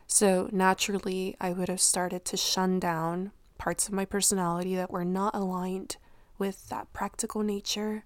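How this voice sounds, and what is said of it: Hoarse, unclear voice from illness. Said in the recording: “I'm losing my voice. Did I tell you that I was sick? ... my voice actually sounded better then than it sounds now ... it's sounding even more unclear today”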